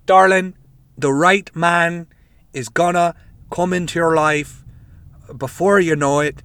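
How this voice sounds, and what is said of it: Put-on Irish accent. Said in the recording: “This is not Miss Cleo, it's just a fucking Irish accent.”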